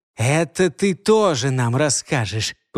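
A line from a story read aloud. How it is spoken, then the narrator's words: Hiss. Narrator (Russian): прошипел младший кочевник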